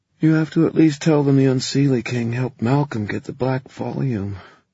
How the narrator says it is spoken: Emma said sleepily

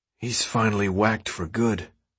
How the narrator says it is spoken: Min-ho said, almost in a whisper

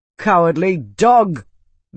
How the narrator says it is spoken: Bitan spat, letting his voice rise

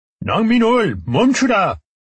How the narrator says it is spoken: the guard shouted

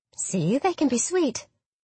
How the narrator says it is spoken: I said happily

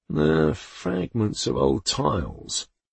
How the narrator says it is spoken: mumbled

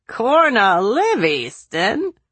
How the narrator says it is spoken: Corporal Weston laughed

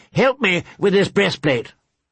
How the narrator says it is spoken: Sir Willis Word called out

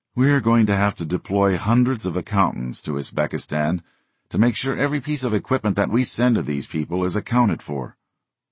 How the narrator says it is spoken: a CIA counterpart announcing wearily

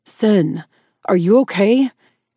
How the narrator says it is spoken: he shouted as if I couldn't hear him

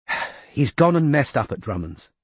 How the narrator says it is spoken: sighed Izzy

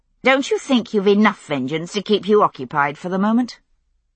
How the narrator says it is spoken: I spoke more sharply than I intended

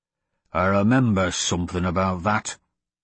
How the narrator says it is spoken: the dwarf growled

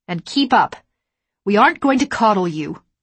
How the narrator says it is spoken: I snapped

